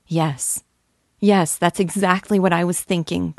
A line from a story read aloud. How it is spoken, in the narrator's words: cried Nastenka, and her eyes beamed with delight